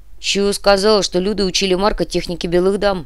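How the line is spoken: Grumbling reply. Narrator (Russian): проворчал в ответ Петр

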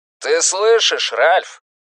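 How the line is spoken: Roaring. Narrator (Russian): проревел Стью

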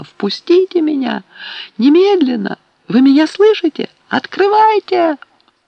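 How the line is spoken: Frightened, furious scream. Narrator (Russian): Тут девушка овладел такой страх и гнев, что она закричала

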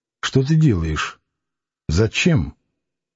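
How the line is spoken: Quiet hoarse question. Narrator (Russian): она тихо, с хрипотой в голосе спросила

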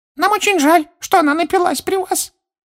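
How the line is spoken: Dejected squeaky voice. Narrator (Russian): понуро пропищал другой эльф, сокрушенно качая головой

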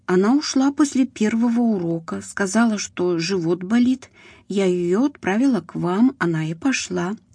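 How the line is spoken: Plain. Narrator (Russian): сказала учительница Риты

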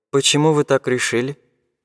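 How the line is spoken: Sad. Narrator (Russian): грустно сказал академик

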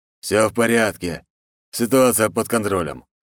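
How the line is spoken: Amused snort. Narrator (Russian): хмыкнул Волк

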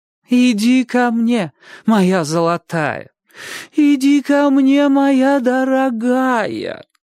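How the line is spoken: Singsong, aunt. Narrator (Russian): Нараспев повторяла тетушка

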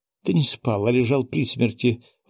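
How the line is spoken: Exclamation. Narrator (Russian): воскликнула Мила

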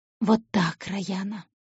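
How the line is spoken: Whisper. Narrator (Russian): шептал он

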